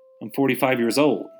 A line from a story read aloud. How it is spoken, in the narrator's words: laughed Stella